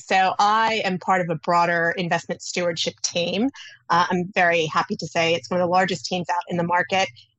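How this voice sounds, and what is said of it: Noticeable foreign accent. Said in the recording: “Your accent and your first answer gives a little bit away”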